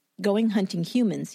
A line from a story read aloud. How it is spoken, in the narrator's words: he answered